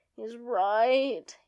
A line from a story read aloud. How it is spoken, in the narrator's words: Anakin moans